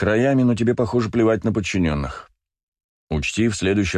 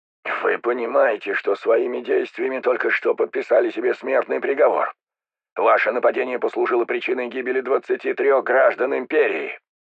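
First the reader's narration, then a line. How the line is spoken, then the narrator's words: Hoarse, restrained emotion. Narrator (Russian): Кордиани все-таки смог справиться с переполнявшими его эмоциями и прохрипел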